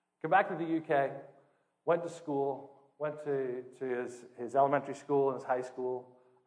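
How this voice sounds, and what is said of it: British accent. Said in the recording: “I'm from the UK, so the accent fits today.”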